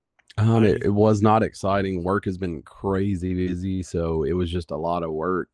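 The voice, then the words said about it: Hoarse, congested voice from a cold. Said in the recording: “Recovering from the cold... My voice is still a little bit out. I still have some drainage... I still get a little sniffly”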